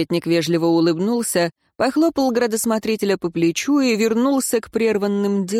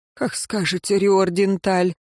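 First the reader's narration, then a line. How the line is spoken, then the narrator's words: Heavy sigh, giant. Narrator (Russian): тяжело вздохнул Исполин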